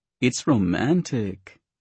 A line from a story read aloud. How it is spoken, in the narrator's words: Tina sighed